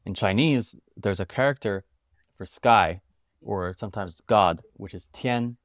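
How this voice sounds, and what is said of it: American accent. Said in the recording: “I'm a British American, born in the UK, but grew up in America, as you could tell by my accent. I still say water, not wada.”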